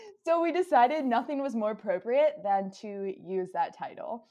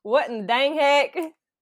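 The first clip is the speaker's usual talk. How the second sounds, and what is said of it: Weird put-on country accent. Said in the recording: “Sometimes it's in some weird country accent.”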